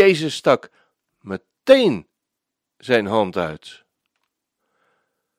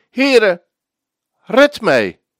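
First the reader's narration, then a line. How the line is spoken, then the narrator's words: Frightened cry for help. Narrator (Dutch): werd hij bevreesd en toen hij begon te zinken, riep hij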